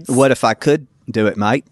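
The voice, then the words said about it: Put-on Australian accent. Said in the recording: “I can do a fabulous Aussie accent. ... See, that's pretty good. ... Oh, he's good.”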